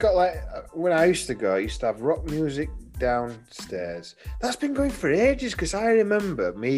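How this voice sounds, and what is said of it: Usual voice. Nothing is said of it.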